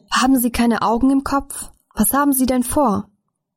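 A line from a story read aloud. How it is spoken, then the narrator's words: Shouted. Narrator (German): Jemand schrie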